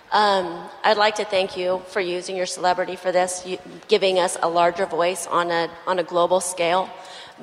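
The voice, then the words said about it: Weak, strained voice. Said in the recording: “my voice is weak from everything”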